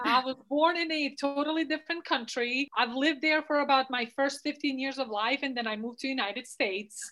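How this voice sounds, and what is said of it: Noticeable non-native accent. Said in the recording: “she has an accent”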